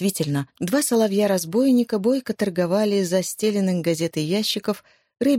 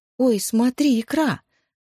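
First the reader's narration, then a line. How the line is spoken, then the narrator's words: Exclaiming. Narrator (Russian): воскликнула Оля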